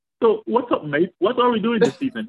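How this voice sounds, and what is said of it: Put-on British accent, Jamaican showing through. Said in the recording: “whenever I hear a British accent, I want to be like ... I'm putting on my British accent, but the Jamaican part was just not allowing me to do”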